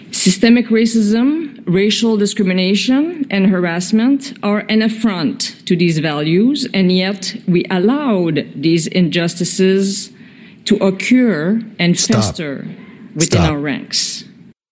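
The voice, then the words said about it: Odd, Eastern European-sounding accent. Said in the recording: “She sounds Ukrainian to me. Does she sound like, is that a French accent? ... It's very odd. ... I'm not really picking up a very strong French vibe to it. ... It does kind of sound a little bit maybe of a Eastern European kind of.”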